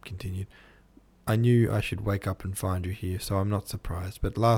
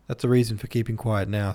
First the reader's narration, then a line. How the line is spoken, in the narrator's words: said Newman